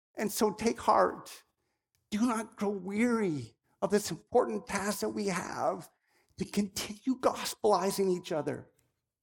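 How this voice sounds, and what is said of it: Emotional, choked-up speaking voice. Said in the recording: “That's why I'm getting emotional.”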